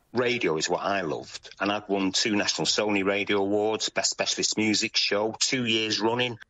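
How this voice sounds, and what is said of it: Manchester English accent. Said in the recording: “Manchester was the most un-English of English cities growing up ... because of my accent, there was no chance of that in those days”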